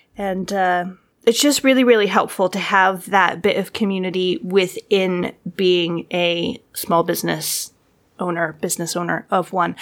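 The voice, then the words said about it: Tired-sounding voice. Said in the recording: “now I'm tired, which you can probably hear in my voice”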